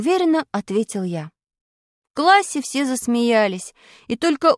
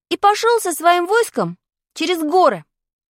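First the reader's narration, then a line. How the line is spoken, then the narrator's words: Cheerful, elated. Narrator (Russian): бодро добавил я, окрыленный успехом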